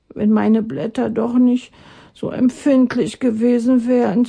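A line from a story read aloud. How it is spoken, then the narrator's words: Sighing. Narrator (German): seufzte er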